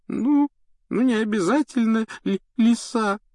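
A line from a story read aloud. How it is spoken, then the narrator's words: Tearful reply. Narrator (Russian): ответила Лаванда, сквозь слезы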